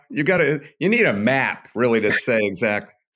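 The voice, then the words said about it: Michigan accent. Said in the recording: “I said that like a Michigan person.”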